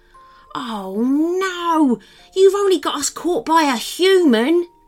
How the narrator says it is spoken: groaned Maximus

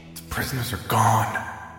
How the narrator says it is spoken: Dante told him fiercely, but quietly

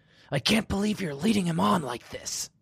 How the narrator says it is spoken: she hissed

